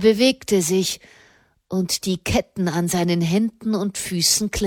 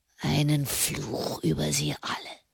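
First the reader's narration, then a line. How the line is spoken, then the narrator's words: Hoarse whisper. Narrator (German): flüsterte er heiser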